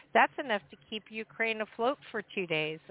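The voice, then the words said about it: Sarcastic tone. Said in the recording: “I'm being sarcastic. ... No, I'm being sarcastic.”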